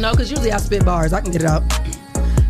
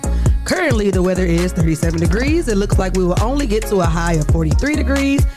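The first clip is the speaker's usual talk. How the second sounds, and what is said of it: Radio announcer voice. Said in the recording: “Let me try and use my radio voice.”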